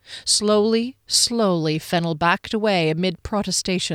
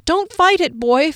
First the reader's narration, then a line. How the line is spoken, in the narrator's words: Fennel cried